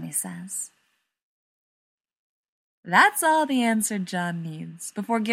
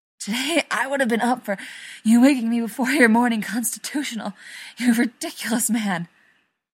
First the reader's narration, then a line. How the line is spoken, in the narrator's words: Rodney gasps when John's free hand worms its way inside the 2 small USAF sweatpants he stole from John years ago